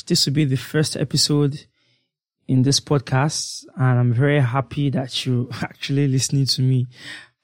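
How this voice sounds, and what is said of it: Shaky, croaky voice from a cold. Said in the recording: “Sorry about my voice. I know that it sounds kind of shaky and croaky at the moment. That's because I have a terrible cold”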